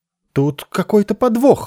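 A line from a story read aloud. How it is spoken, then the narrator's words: Shrill squeal. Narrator (Russian): взвизгнул Иенару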